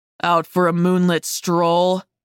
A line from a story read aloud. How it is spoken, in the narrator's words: He asked, his voice deep and probing, like it was trying to draw something intimate out of me